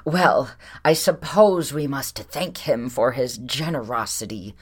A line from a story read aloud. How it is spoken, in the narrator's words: she exclaimed, sarcasm dripping